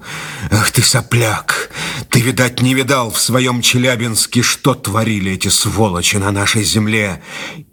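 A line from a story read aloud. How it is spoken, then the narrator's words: Hateful exhale. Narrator (Russian): с ненавистью выдохнул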